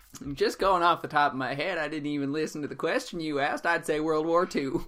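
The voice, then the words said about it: Put-on southern accent. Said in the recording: “in a southern accent, which is the voice you use when you're lying”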